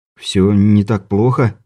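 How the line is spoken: Uncertain. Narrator (Russian): неуверенно произнес Стюарт

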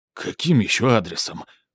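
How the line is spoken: Hoarse rasp. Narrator (Russian): прохрипел он

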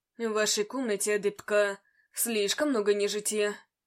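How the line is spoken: Growling. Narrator (Russian): прорычал магистр

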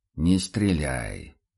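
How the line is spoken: Quiet request. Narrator (Russian): попросил Курт тихо

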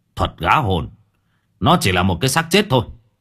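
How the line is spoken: Shouted. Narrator (Vietnamese): Ông Long quát lên

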